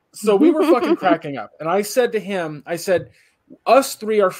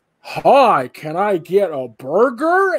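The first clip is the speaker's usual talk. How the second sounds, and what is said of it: Bad imitation of a Californian accent. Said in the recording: “try to mimic our accent ... it was so bad”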